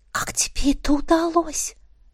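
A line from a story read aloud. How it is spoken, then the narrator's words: Whispered question. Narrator (Russian): спросила я шепотом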